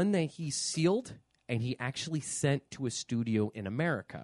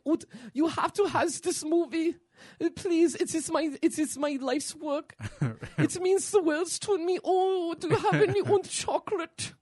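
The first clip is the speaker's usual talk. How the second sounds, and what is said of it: Put-on comic German accent. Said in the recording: “your fucking German fucking accent is like the fat kid from Willy Wonka ... I was trying to do the fat Lederhosen kid from The Simpsons”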